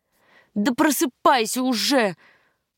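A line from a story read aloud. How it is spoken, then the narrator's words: Pleading. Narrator (Russian): взмолилась я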